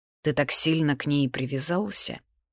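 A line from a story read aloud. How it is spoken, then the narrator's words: Muttered aside. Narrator (Russian): пробормотал в сторону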